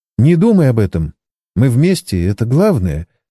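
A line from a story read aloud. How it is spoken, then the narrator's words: Tender, gentle. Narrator (Russian): ласково произнесла она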